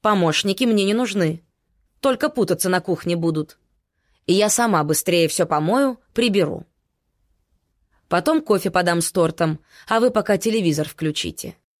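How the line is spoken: Commanding tone. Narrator (Russian): мать сказала командирским тоном

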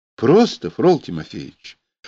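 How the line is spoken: Peaceful, gentle chuckle. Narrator (Russian): мирно усмехнулся и добавил ласково

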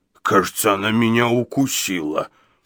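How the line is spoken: Bewildered, forced out. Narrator (Russian): Недоуменно выдавил Гадсон

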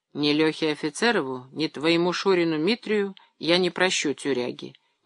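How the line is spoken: Quiet. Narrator (Russian): негромко говорил Леонид

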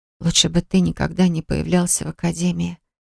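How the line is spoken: Hoarse voice. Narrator (Russian): проговорила охрипшим голосом

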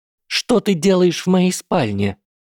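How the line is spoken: Shrill shriek. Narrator (Russian): взвизгнула Дафна

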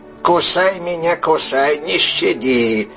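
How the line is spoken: Creaky rattling voice. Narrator (Russian): приговаривал он своим скрипуче-дребезжащим голосом

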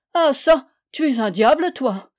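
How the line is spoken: Exclaimed, half laughing, half angry. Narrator (French): s'écria le jeune homme d'armes, moitié riant, moitié fâché

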